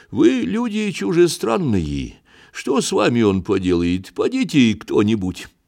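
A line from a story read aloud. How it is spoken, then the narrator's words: Gentle, kind. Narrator (Russian): ласково сказал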